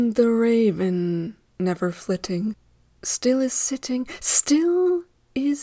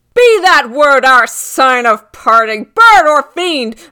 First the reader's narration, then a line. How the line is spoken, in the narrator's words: shrieked